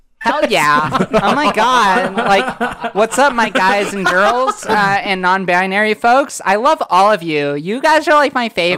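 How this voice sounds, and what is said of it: Stereotyped gay character voice. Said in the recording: “doing a gay voice bit”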